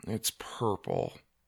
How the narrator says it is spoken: Doug mumbled

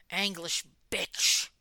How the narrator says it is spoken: hissed

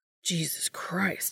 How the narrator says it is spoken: he mutters

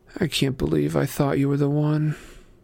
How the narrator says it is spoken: She mumbled under her breath

